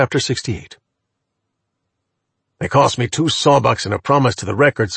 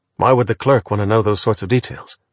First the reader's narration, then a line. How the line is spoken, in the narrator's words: asked Archer